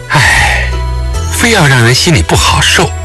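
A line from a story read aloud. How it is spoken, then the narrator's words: Long soft sigh. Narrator (Chinese): 裴素云把头靠在李元芳的肩窝，悠悠叹息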